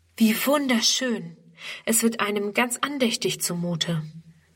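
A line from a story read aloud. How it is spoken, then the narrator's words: Awed chorus. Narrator (German): staunen alle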